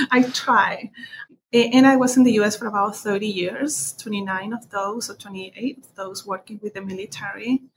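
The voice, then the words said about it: Heavy foreign accent. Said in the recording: “I still have such a horrible accent.”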